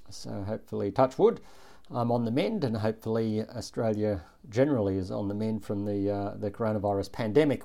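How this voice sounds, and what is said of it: Voice sounds a little funny. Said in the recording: “my voice sounds a little bit funny through this podcast, it's because I'm at the tail end of a little bout of coronavirus”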